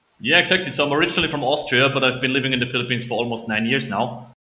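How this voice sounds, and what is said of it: German-speaking Austrian accent. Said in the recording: “I was trying to place the accent. It did not sound Nordic, like Lucas. ... No, it's German, exactly. Yeah. So it's technically German.”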